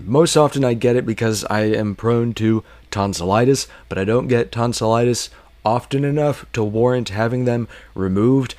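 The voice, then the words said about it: Deeper, congested voice. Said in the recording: “my voice is a little deeper, a little bit sexier as of this morning because I woke up with a sinus infection”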